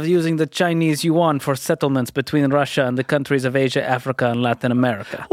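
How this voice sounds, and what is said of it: Put-on Russian accent. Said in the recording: “I'm tempted to try my Russian accent ... That's pretty good.”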